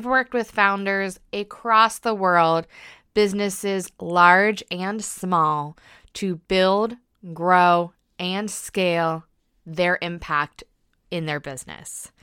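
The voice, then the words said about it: American accent. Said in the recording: “I am an American living in the UK, so yes, that is an accent you probably detect”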